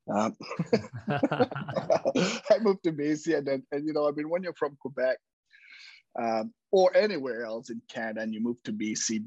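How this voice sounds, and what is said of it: French-Canadian accent. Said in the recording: “I'm French-Canadian. I was born in Quebec ... 25 years later, I still have an accent.”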